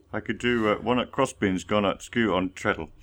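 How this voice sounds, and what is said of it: Put-on Yorkshire accent. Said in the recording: “you have to do the Yorkshire accent”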